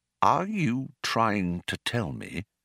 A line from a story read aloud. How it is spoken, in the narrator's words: said Arthur, slowly and with control